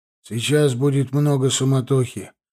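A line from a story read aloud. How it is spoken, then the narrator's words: Gloomy. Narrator (Russian): мрачно сказал мой будущий отчим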